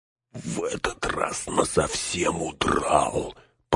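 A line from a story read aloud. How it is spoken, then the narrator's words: Grumbling. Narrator (Russian): пробурчал Сэм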